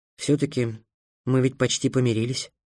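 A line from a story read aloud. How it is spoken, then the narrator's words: Sighing. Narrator (Russian): вздохнул Трикс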